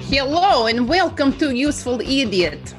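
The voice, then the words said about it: Put-on Russian accent. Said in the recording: “I love your Russian accent. ... Right on the money. ... the hello is very good.”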